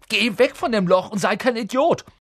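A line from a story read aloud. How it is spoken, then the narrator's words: Crying out. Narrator (German): schrie Ron auf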